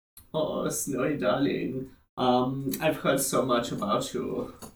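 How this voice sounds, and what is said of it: Obnoxious put-on German accent. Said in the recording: “obnoxious German accent”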